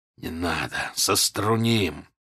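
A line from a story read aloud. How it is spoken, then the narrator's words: Whisper. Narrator (Russian): Данила прошептал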